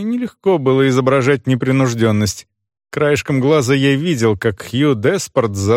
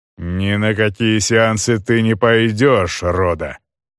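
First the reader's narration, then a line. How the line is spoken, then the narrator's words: Growled. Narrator (Russian): прорычал Деспорт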